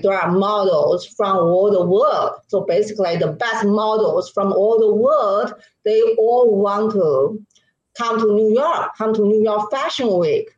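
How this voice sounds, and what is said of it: Chinese accent in English. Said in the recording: “to totally get rid of my Chinese accent”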